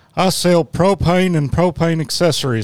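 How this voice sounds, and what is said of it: Weak Hank Hill impression. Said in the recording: “Hank Hill ... That's a bad one ... except that Hank was not”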